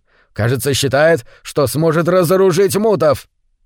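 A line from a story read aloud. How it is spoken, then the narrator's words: Growled. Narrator (Russian): прорычал Джим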